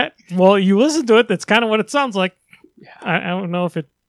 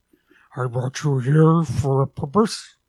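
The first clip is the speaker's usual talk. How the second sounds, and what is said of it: Imitates Unicron character voice. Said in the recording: “your Unicron impression”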